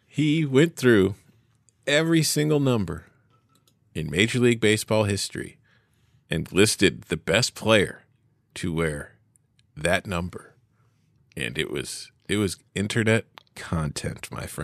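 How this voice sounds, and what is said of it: Speaking very slowly. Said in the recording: “you're talking so slow”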